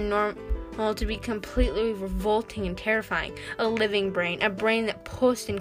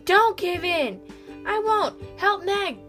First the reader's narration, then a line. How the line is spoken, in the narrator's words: Calvin yelled back